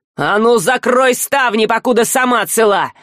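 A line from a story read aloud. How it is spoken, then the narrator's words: Harsh growl. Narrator (Russian): рыкнул на нее Альк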